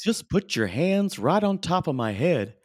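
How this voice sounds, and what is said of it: Weird snowman character voice. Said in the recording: “I think it might be that little snowman. That's a weird voice.”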